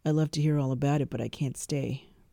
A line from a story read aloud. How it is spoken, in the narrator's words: Crary sighs